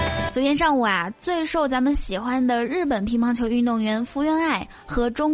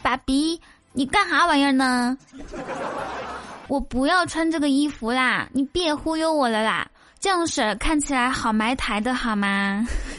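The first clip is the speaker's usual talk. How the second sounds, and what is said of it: Mixed Northeastern Chinese and Taiwanese accent. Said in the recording (Chinese): “福原爱是一个东北话十级的妹子，所以很难想象他们俩以后孩子的口音是啥样的”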